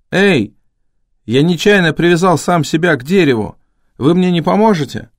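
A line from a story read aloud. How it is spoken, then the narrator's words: Shouting. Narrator (Russian): я кричал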